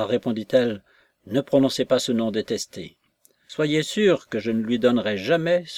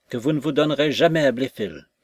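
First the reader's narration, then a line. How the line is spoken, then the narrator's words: Exclaimed. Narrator (French): s'écria Jones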